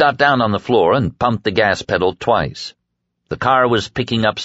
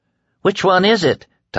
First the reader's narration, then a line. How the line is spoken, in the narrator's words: Tom cried anxiously